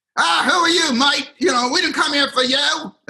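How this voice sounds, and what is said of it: Put-on Australian accent. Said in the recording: “That's my Australian accent,”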